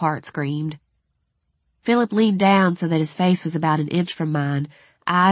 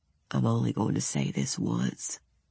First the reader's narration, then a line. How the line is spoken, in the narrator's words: he said just as softly